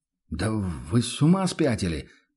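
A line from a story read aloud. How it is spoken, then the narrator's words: Stunned mutter. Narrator (Russian): пробормотал трактирщик оторопело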